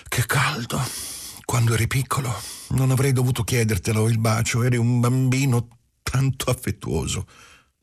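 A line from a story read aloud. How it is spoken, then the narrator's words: Sighing. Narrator (Italian): Ella disse con un sospiro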